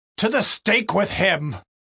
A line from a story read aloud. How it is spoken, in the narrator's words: they kept shouting out all the more